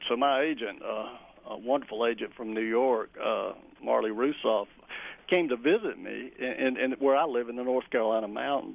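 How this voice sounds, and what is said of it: Speaker's own regional American accent. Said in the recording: “people hear my accent or they think of the Appalachian Mountains”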